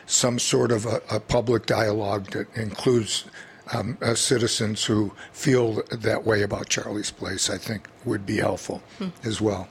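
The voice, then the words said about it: Hoarse, fading voice. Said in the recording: “I'm losing my voice today.”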